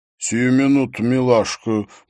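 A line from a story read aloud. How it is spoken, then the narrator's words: Deep-voiced, sly woman. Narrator (Russian): пробасила официантка в римском шлеме и лукаво ухмыльнулась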